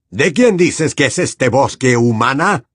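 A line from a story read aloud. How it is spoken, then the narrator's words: Roaring. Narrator (Spanish): rugió Bane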